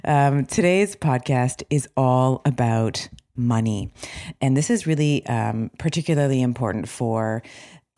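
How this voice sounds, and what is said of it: Hoarse, low late-night DJ voice. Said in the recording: “I am just getting over losing my voice ... I lose my voice. So here you have, we'll call this the late night radio FM DJ voice.”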